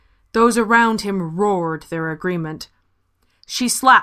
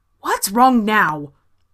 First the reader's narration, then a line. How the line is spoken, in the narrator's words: Marta asked, her voice sharp